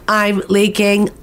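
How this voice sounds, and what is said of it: Robotic voice. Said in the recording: “in my best robot voice”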